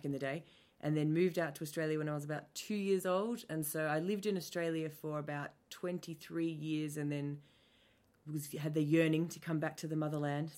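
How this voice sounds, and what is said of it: Mixed, not typically Australian accent. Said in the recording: “my accent isn't typically Australian ... it has influences from a whole range of other places. My dad's Scottish ... people thought I was English or South African or any kind of weird combination of English accents”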